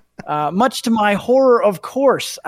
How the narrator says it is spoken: I yelled

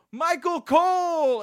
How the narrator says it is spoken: One guy screamed out one guy screamed out for no reason

